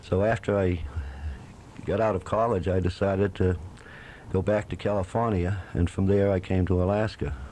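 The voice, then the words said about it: New England accent. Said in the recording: “one other thing with you from New England, your accent.”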